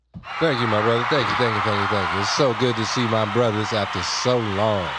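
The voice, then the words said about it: Smooth radio-DJ R&B voice. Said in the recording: “you keep using the radio voice ... I swear he's doing an R&B skit ... It's like a 70s singer on a cruise ship.”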